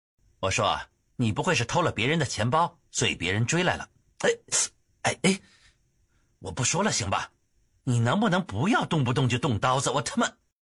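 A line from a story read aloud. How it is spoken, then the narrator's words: Cold. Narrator (Chinese): 姬秋……冷冷说道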